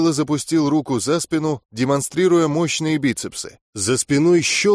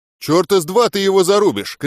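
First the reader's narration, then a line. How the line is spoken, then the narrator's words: Shout after someone. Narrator (Russian): крикнул я в спину орку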